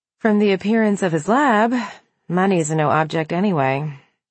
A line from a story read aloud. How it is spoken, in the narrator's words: she sighed